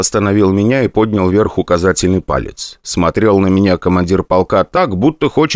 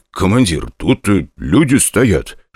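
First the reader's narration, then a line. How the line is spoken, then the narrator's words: Whisper. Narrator (Russian): шепнул я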